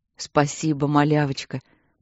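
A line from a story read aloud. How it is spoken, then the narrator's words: Deep conciliatory voice. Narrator (Russian): пробасил Матвей, примиряясь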